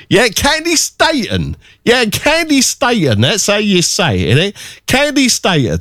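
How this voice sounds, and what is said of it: Put-on regional English accent. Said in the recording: “my Ken accent comes out when I say Candy Staten”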